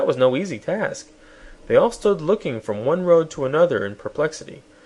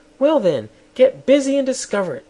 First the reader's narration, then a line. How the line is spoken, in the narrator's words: snapped the queen